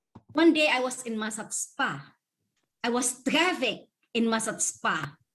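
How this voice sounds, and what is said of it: Very strong, hard-to-understand accent. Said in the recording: “she does have a very strong accent ... She does have a very strong accent, so it's a little bit hard to understand her.”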